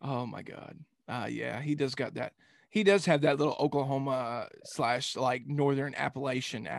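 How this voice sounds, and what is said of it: Usual voice. Nothing is said of it.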